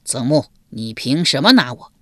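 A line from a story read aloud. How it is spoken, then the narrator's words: Shocked and angry. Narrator (Chinese): 不由得又惊又怒，道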